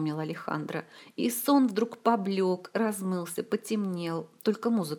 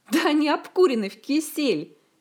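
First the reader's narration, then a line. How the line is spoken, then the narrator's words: Giggling disrespectfully. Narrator (Russian): хихикнул непочтительный ученик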